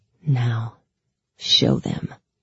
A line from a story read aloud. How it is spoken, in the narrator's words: the Darkling murmured softly